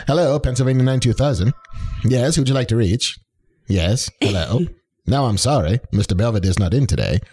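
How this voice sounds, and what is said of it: 1930s switchboard operator voice. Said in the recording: “my 1930s switchboard operator impersonation”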